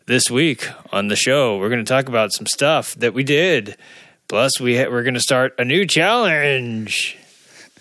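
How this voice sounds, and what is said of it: Announcer voice. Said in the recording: “that's my announcer voice.”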